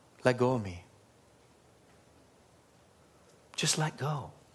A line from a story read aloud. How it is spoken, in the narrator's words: just whispered and he said